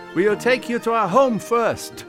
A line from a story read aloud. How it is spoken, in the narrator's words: shouted back